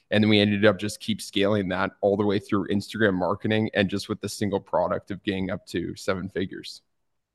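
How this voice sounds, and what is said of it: Canadian English accent. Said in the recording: “are you from Canada? ... Yeah, I am. Do you hear it in the accent? ... I definitely could hear it.”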